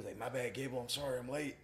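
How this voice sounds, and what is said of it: Deep raspy imitated voice. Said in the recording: “I got a deep, raspy voice”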